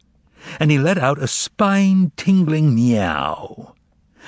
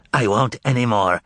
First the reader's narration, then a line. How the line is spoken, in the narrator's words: rasped the head